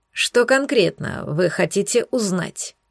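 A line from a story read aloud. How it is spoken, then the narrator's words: Calm question. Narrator (Russian): спокойно спросил Десмонд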